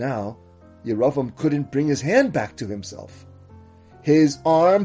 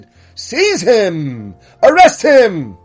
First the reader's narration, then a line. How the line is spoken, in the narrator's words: Yeravam shouted